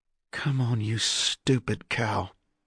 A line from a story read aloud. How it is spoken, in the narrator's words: muttered Dez, too quiet even for the huddled kids to hear